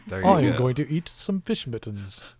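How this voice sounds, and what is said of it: Bad put-on British accent. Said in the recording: “That was the worst British accent I've ever heard.”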